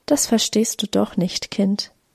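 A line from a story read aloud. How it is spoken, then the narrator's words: Soft. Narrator (German): Sie sagte leise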